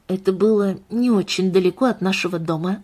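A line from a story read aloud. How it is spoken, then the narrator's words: Quiet. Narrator (Russian): добавил Томас тихо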